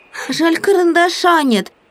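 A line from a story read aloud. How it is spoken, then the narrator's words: Squeak. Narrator (Russian): пискнул Прутик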